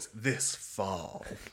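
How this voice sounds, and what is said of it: Dramatic movie-trailer narrator voice. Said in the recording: “the really dramatic voice”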